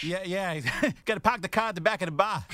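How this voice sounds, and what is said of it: Put-on Boston accent. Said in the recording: “can you do a Boston accent? ... I can only do like the part from The Departed.”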